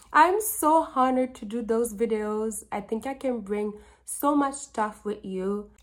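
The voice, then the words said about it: Slight accent. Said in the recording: “a little bit of an accent.”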